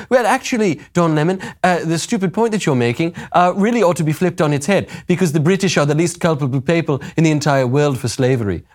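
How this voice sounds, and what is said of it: Imitated British accent, not quite convincing. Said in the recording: “I'm kind of doing a little bit of a Paul McCartney man ... I don't know that I can really do a proper British accent like she's doing.”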